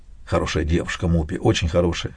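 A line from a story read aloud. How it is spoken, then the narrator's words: Whisper. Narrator (Russian): шепнул мне Дафу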